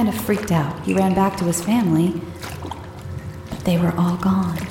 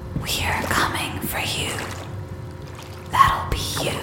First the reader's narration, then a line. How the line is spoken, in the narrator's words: there was a light whisper that said